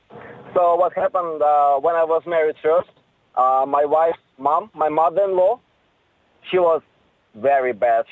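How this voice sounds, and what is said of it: Speaks with a noticeable accent. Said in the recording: “Can't get enough of that accent in the morning.”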